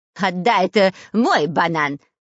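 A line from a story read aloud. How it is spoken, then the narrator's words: Shouting. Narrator (Russian): кричал шпион Дырка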